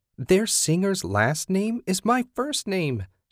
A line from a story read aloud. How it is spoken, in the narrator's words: she'd squeal